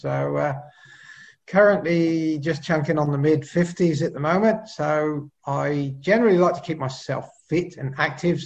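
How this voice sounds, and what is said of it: English accent. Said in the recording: “I'm originally from the UK, so you can sort of probably tell from my Pommy accent”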